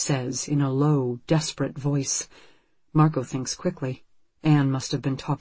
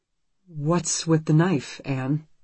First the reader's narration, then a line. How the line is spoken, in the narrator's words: Marco asks, forcing his voice to stay calm